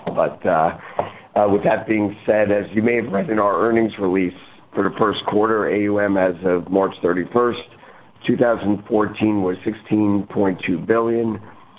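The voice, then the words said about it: Voice sounds a little off. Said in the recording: “I inherited a cold, and my voice is a little bit off.”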